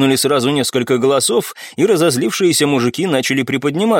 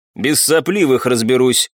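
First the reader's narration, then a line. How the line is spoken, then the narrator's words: Scoffing man. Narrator (Russian): хмыкнул мужчина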